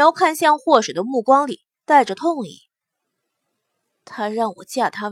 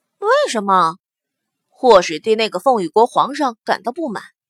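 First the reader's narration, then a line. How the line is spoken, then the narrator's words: Bitter, mournful laugh. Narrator (Chinese): 冉柔突然笑了两声，声音凄苦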